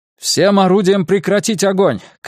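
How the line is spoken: Shout. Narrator (Russian): крикнул Канмин

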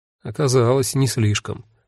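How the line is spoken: Gloomy tearful mutter. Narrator (Russian): мрачно буркнула Цвета, вытирая слезы

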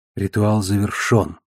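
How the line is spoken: Whisper. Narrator (Russian): прошептала она

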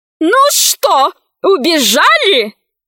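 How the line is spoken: Woman yelling. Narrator (Russian): завопила на космолингве толстая рыжая женщина

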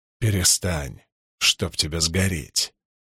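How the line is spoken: Growl. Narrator (Russian): прорычал Перин

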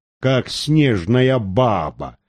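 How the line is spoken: Tired inward chuckle. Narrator (Russian): устало усмехнулся про себя Перхуша

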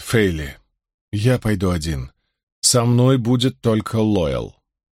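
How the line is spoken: Deep breath, trying to sound firm. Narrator (Russian): Перрин глубоко вздохнул и сказал, стараясь придать голосу твердость

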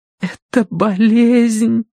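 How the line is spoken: Trembling whisper. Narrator (Russian): Дрожащим голосом прошептала Киврин

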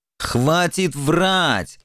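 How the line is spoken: Irritated barking. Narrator (Russian): раздраженно рявкнул Формазон

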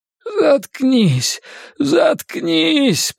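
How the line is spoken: Groaned. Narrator (Russian): простонал Генри

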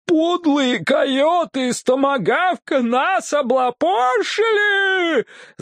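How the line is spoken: Yell. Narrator (Russian): завопил кто-то из жителей Гунстака

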